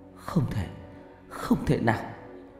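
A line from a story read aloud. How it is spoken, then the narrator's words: Tearful, choked voice. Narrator (Vietnamese): Cô hai hàng nước mắt tuôn rơi, giọng nói nghẹn ngào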